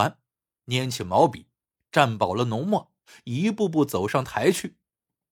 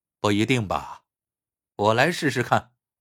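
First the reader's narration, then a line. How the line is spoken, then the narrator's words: Smiling. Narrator (Chinese): 一个白衣长衫的人笑着说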